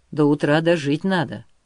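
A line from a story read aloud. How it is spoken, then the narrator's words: Gloomy. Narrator (Russian): мрачно сказал Григорий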